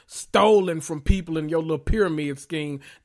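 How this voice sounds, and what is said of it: Imitates another person's voice. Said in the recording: “in my Erica Jane voice”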